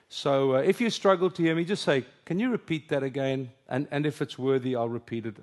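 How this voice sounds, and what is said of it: Afrikaans-accented English. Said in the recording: “English is my second language. Afrikaans is my first.”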